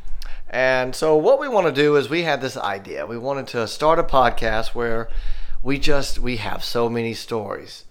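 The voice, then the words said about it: Southern US accent. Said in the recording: “here in the Southeast. If you couldn't tell by my voice.”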